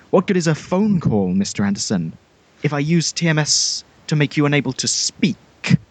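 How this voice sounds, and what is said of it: Imitates Agent Smith's voice, unpolished. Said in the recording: “your Hugo Weaving impression ... You could maybe have practiced it a little bit more.”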